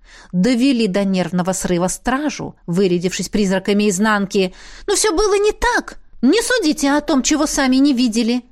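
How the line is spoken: Exclamation. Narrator (Russian): воскликнула Беата

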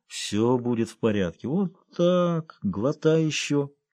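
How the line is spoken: Quiet encouragement. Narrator (Russian): подбодрил его Джонни, негромко приговаривая

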